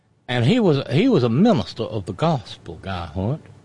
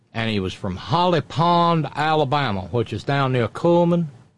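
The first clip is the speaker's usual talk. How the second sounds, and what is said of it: Slipping into an Alabama accent. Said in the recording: “Sorry, I just slipped right into the accent.”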